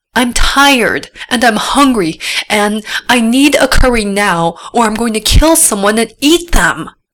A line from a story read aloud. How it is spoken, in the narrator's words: yelled through her cell phone